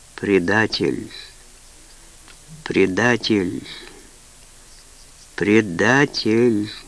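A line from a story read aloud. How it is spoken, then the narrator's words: Calm, emotionless. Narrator (Russian): голос звучал спокойно, без эмоций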